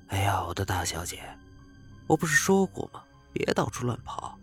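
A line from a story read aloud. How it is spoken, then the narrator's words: Low voice. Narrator (Chinese): 张剑锋低声对小兰说道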